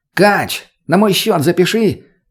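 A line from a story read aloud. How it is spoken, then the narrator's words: Shouted. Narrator (Russian): крикнул Рустам бармену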